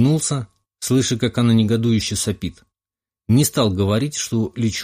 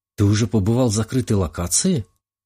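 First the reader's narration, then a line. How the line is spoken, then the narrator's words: Breathless. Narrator (Russian): выдохнула Ника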